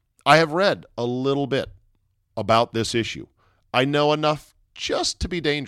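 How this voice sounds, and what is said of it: Usual voice. Nothing is said of it.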